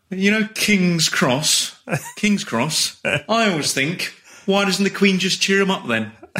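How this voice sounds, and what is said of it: Stereotypical London English accent. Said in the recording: “London observational comedian ... I learned that accent off listening to other people trying to do an English accent ... I put on the stereotypical English”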